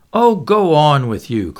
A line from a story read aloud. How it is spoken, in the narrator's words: cried Miss Taylor coquettishly